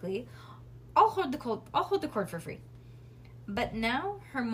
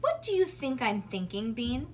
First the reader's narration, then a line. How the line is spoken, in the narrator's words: Bean sighed